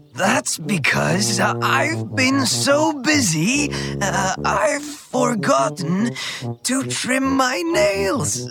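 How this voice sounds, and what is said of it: Rough, disguised character voice. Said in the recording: “why has your voice become so rough?”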